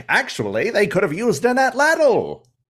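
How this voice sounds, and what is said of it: Put-on transatlantic accent. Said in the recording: “I don't know why I went transatlantic accent there.”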